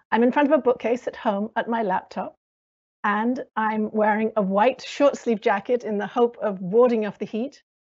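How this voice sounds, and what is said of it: British American accent. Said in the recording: “as you can probably hear from my accent, I'm British American.”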